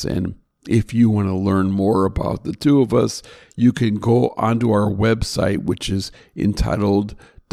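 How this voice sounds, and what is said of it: Slightly gravelly voice. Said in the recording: “My voice is getting a little gravelly”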